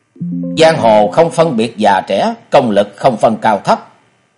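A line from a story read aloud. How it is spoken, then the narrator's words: Angry. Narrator (Vietnamese): Gã kiếm khách đi đầu giận dữ nói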